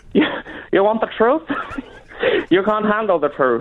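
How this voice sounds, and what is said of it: Questionable accent in movie-line impression. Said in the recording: “That's a very questionable ... accent.”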